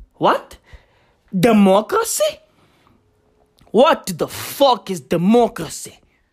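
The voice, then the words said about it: Put-on foreign accent. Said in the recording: “I fucking nailed that accent. ... I nailed that!”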